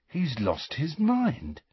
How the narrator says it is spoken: said Ron, in an almost awed voice

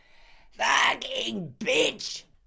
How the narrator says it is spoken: the man screamed

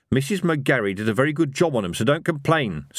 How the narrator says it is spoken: snapped Evil Harry

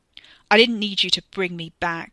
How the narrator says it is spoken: snarled

